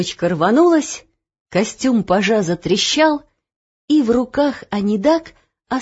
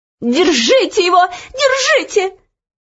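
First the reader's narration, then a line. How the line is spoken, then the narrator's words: Shrill shout after her. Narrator (Russian): визгливо закричала ей вслед Анидак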